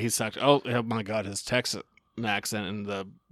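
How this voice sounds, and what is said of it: Usual voice. Nothing is said of it.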